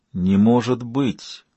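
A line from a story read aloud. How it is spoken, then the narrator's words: Muttered under breath. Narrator (Russian): пробормотал под нос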